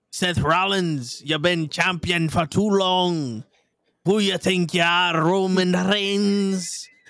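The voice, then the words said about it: Convincing put-on Scottish accent. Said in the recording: “this accent kind of works. It's like, if you close your eyes, you think it's someone from Scotland actually talking.”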